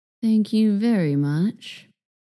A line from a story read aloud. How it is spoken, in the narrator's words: Douglas said, his voice heavy with irony